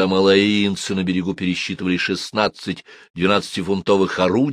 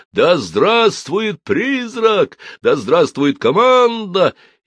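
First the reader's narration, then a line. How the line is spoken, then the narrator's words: Shout from crowd. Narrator (Russian): Из толпы кто-то крикнул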